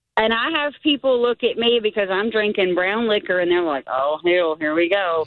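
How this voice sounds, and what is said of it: Mississippi Southern accent. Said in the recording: “that Mississippi accent you got going on.”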